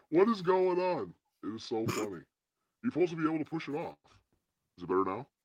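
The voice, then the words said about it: Artificially deep voice. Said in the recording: “Nope, deep voice.”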